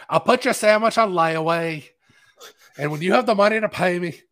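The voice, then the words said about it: Poor put-on Boston accent. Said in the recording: “my horrible Boston accent ... I do a horrible Boston accent.”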